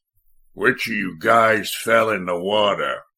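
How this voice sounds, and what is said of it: Rich American drawl. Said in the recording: “in a rich American drawl”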